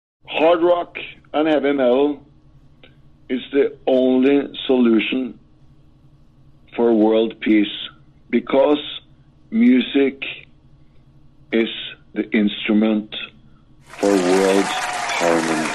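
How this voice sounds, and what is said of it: Foreign-accented English. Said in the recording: “best accent ... foreign accents. They sound cool ... that super cool accent of yours”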